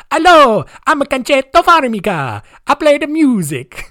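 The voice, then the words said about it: Put-on Italian accent. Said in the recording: “I feel like I'm going to do a lot of Italian accents here. And it's, I love doing my Italian accent because it just annoys people so much.”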